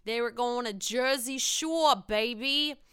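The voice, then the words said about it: Put-on Jersey accent. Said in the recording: “I don't know why I did that in that fucking accent. That was so dumb.”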